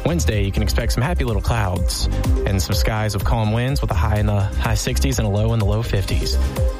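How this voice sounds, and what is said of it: Bob Ross impression. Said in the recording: “in a Bob Ross accent”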